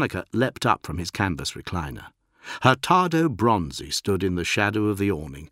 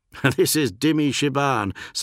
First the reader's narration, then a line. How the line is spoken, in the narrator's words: Sonika laughed